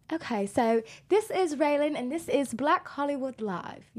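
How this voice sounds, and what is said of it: Put-on posh English accent. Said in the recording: “my British accent ... a posh English accent, which would be a bit more like the Queen. So well spoken, like really well spoken ... That's not too bad ... That's actually not too bad”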